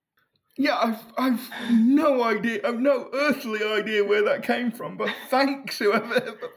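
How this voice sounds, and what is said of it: British accent. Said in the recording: “confused with James Corden ... I guess I can see the similarities in the accent ... he's not from Nottingham ... So, British, British”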